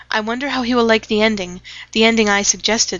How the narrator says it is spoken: said Leslie

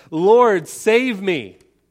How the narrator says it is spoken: he cried out and he said

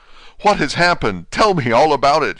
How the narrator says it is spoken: cried without pausing

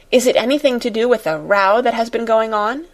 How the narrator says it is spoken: said eagerly

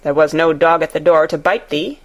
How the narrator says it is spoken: he answered

